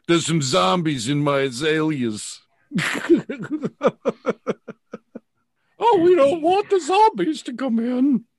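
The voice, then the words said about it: Bad impression of an actor's voice. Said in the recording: “very bad, bad impersonations of actors”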